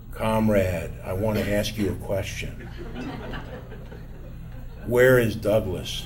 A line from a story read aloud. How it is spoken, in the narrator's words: in an eerily quiet tone, he asked me in his godfather-like gravelly voice